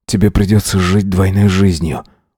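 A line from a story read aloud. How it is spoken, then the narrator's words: Breathed out. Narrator (Russian): выдохнул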